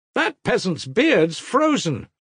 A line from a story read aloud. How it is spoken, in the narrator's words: Kolya cried in a loud, provocative voice